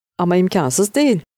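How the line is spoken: Laughing. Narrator (Turkish): diye güldü Şaziye

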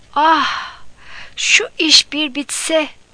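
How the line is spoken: Pig groaning. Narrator (Turkish): diye inledi domuz

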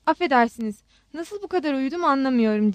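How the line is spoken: Stammering slow English. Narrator (Turkish): diye kekeledi Armanus ağır çekim İngilizceyle

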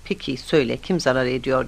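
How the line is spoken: Plain. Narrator (Turkish): dedi

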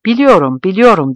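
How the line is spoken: Stammered. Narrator (Turkish): diye kekeledi Can Tezcan

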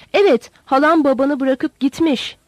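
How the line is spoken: Shouting. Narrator (Turkish): diye bağırdı

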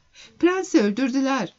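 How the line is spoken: Woman crying out. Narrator (Turkish): diye haykırdı Kontes

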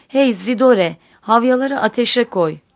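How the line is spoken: Shouting. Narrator (Turkish): diye bağırdı

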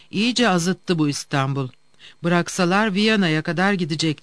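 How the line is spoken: Plain. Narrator (Turkish): dedi

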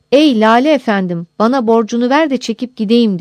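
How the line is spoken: Crying out. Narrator (Turkish): diye haykırmış

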